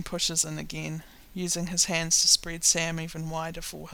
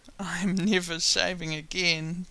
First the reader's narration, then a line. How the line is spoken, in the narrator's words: Dean laughs